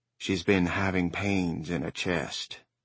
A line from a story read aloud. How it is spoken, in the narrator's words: Judd said in a low voice